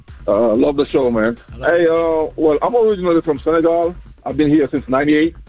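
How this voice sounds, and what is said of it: Senegalese accent. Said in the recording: “you still got your accent ... you from Senegal because that's what they sound a little like”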